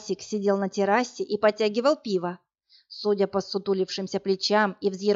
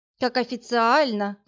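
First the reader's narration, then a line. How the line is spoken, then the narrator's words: Sing-song. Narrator (Russian): пропела она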